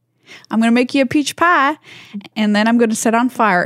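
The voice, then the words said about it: Put-on Georgia Southern accent. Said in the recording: “I'll do it in a Georgia accent... I could do a very good Georgia accent... it's really just a Holly Hunter impression”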